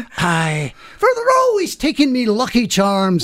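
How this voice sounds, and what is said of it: Stereotyped Irish leprechaun voice. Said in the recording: “now you're doing leprechauns”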